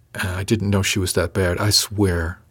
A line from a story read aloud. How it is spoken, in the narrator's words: added quietly